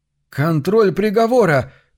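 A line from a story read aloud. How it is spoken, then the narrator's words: Shout. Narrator (Russian): крикнул он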